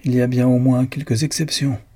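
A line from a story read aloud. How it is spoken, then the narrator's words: Cold. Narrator (French): dit froidement Lucan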